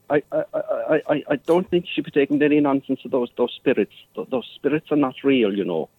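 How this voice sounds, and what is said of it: Fake Irish accent. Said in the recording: “Neither is your Irish accent”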